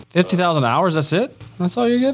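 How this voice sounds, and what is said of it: Sarcastic mock-disappointed tone. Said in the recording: “I was being sarcastic.”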